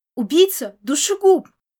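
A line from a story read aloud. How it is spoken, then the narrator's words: Sudden loud shout. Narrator (Russian): Кто-то из толпы вдруг громко крикнул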